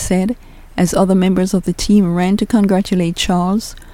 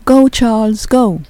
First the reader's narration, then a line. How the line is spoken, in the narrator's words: smiled as their eyes met and shouted again